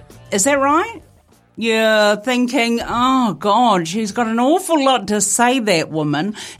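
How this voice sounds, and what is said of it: Colloquial New Zealand accent. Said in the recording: “I have developed quite the colloquial twang to my Kiwi accent”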